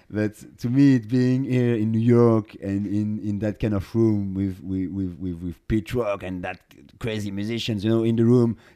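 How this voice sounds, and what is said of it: French accent. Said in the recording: “I'm from Paris, as you can listen with my accent.”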